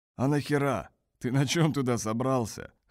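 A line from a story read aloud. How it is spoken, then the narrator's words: Scoffing grunt. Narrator (Russian): хмыкнул узбек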